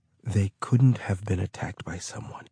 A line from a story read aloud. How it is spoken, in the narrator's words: Oversay whispered